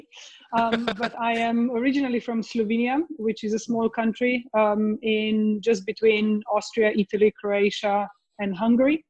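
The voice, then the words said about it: Hard-to-place Eastern European accent. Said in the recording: “my accent might be hard to place ... They definitely say it's easterly”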